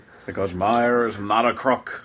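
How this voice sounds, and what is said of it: Richard Nixon impression. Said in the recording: “doing a Richard Nixon impression?”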